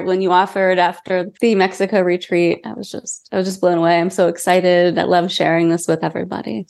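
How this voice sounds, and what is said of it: Cracky voice from a cold. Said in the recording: “I do have a little bit of a cold. So, my voice is a little cracky”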